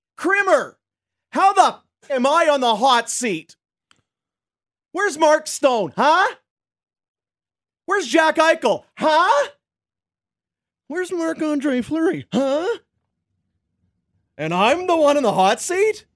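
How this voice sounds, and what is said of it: Animated, heated imitation of another person's voice. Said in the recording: “my Peter DeBoer impression ... He's very animated.”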